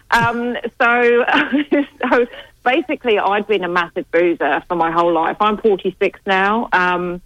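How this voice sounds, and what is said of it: British accent. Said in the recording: “I'm from the UK, as you can probably tell from my accent.”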